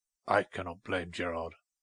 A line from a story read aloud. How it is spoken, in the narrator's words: said Hugh in a low voice